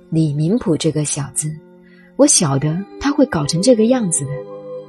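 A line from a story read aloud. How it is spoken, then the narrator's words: Sighing. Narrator (Chinese): 唐明皇一叹，说道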